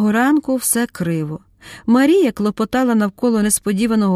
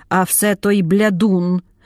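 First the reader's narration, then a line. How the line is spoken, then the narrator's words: Old woman grumbling. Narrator (Ukrainian): буркнула мудра баба Ната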